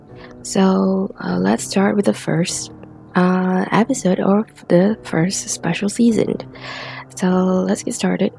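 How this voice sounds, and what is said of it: Slightly lower, late-night voice. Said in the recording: “my voice is a little lower because it's currently like 2:48 a.m.”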